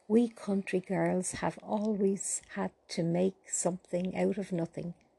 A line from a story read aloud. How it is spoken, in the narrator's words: replied Paula